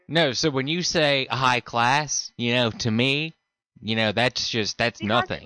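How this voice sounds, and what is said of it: American accent. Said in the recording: “You are your accent. I can tell you are American.”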